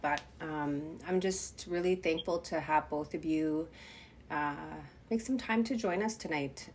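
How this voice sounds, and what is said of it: Congested, stuffed-up voice. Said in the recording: “I'm getting over a cold, so I know that I sound a little stuffed up”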